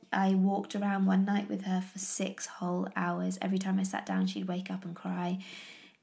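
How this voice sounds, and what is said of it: Sick voice, getting over cold. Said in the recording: “She got such a bad little cold ... As you can probably hear from my voice, I'm actually still getting over it.”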